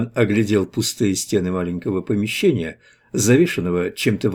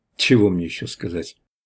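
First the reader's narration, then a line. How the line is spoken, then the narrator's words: Mumbling. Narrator (Russian): промямлил Иван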